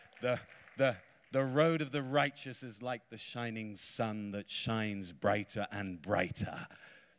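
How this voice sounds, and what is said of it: British English accent. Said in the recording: “you may be able to decipher from my accent. I'm not a Brazilian. I'm a Britishman.”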